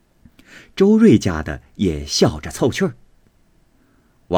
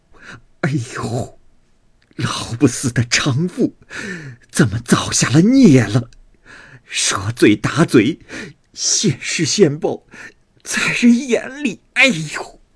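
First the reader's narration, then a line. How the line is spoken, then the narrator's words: Laughing, half-mocking. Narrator (Chinese): 俱笑个不住，有半劝半讽的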